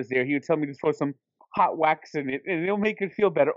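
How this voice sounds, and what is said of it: Put-on cartoonish accented voice. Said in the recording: “Is that Ray Ramirez's accent? ... I always pictured him as sounding like Dr. Nick”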